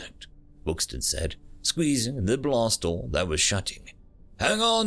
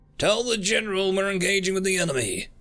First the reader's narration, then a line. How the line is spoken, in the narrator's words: Trucker yelled out